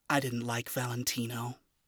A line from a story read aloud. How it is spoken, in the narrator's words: admitted softly